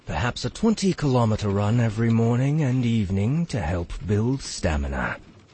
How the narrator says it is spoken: he mumbled

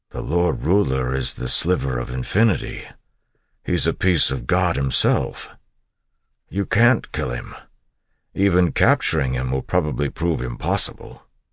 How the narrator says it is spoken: Ham said slowly

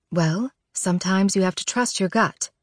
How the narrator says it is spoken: Mom says quietly

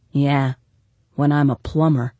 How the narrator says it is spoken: said Reeve gloomily

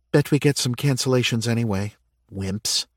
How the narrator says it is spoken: Erin whispered to her friend

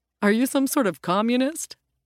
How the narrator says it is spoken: the rabbit chuckled

